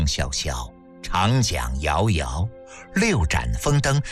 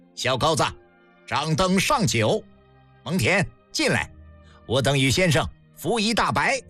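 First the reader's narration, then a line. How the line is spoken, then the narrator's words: Loud, delighted command. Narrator (Chinese): 嬴政哈哈大笑，快意之极……高声吩咐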